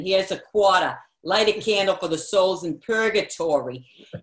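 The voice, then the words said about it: Put-on thick Boston accent. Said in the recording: “in her thick Boston accent”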